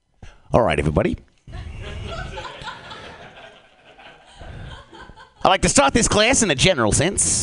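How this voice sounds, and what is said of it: Put-on Australian accent, professor character. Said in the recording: “This is an impression of an Australian jazz professor. ... An Australian professor of jazz music.”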